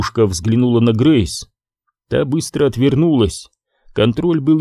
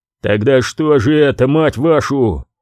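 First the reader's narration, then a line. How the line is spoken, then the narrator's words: Cornered animal growl. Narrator (Russian): прорычал контроль, как загнанное животное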